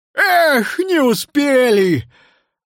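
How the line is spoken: Sorrowful exclamation. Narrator (Russian): горестно воскликнул Нил-Нилыч

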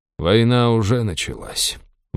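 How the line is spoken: Sighing. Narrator (Russian): вздохнул Алуру

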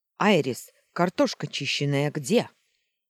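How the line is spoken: Barked, unfamiliar voice. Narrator (Russian): Рявкнули за дверью незнакомым голосом

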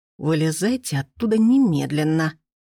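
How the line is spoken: Hiss. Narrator (Russian): прошипел Иван Сергеевич

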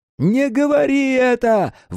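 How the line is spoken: Yelling. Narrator (Russian): вопил Харрисон

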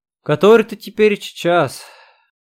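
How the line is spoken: Sleepy murmur. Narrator (Russian): удовлетворяя собственному любопытству, также сонно отвечала себе

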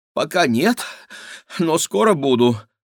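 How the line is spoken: Breathy exhale. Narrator (Russian): выдохнула Клава

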